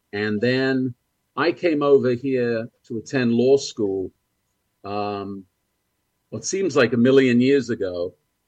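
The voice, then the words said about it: English accent. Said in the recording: “as you can probably tell by the accent, I was born in England”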